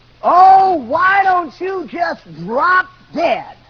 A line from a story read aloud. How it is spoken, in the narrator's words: my mother screamed at the top of her lungs and said